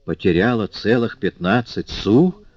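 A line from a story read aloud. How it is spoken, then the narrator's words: Hoarse croak. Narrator (Russian): прохрипела Тонардье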